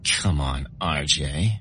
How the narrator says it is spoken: she giggled

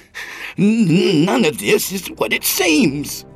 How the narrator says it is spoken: he cried

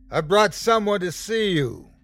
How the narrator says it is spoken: he called out

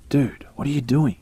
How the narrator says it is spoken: asked

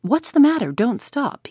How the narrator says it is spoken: he cried

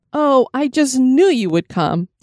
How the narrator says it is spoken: Sarah exclaimed

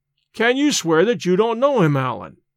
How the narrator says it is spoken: I cried, half angered, half in a mind to laugh at his evasions

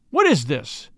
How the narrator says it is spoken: he cried

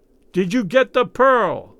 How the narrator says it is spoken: he yelled in Raoul's ear

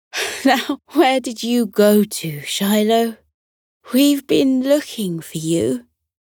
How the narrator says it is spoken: Zookeeper Howie laughed and sighed all at once as he said

